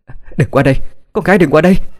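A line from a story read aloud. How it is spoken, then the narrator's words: Screaming. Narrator (Vietnamese): Trần Tuyết đã hét lên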